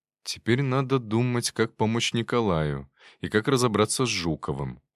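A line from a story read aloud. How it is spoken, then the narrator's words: Tired. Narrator (Russian): устало ответил я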